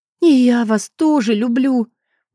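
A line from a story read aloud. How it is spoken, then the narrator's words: Smiling through tears. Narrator (Russian): улыбнулась сквозь слезы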